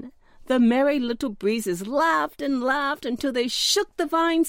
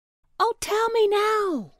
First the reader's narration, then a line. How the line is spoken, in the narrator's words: cried the little pumpkin